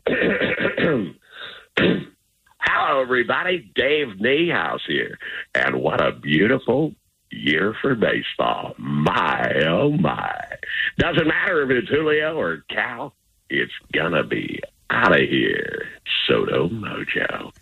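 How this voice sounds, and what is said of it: Imitates a baseball broadcaster's voice. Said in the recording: “doing my Dave Niehaus impression ... you can do a mean Dave, you know, impersonation ... That kind of sounds like Dave Niehaus after dark”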